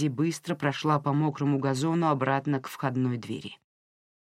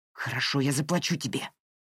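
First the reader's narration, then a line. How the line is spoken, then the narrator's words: Hissed. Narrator (Russian): прошипел Пол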